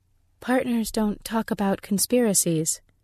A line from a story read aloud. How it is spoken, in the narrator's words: she said evenly